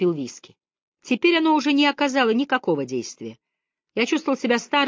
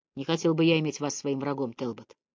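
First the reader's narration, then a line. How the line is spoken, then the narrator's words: Quiet. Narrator (Russian): тихо сказал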